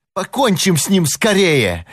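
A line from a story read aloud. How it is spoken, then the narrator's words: Furious exclamation. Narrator (Russian): яростно воскликнул Чарли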